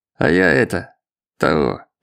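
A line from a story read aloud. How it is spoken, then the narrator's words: Muttered. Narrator (Russian): пробормотал старший инспектор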